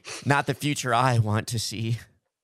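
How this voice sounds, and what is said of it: Imitates another person's voice. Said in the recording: “that was my Tipper Gore impression”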